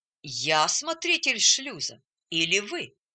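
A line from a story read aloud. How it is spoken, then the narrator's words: Calm objection. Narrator (Russian): спокойно возразил атакованный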